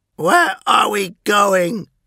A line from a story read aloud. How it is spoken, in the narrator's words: demanded Verosian, his voice mangled by his raw screeching and distended jaws